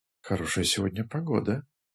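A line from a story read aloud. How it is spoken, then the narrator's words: Whisper. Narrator (Russian): начал шепотом Нэнквис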